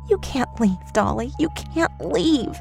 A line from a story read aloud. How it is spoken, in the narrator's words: unfazed, muttering